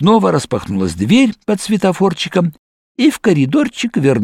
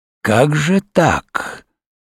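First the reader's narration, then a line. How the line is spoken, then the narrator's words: Clear hiss. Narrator (Russian): прошипел он вполне, впрочем, явственно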